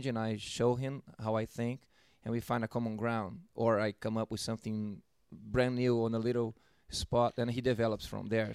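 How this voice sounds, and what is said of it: Brazilian accent. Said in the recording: “a drummer with an accent ... I'm originally from Brazil, São Paulo, Brazil.”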